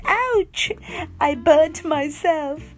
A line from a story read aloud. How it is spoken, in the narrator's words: cried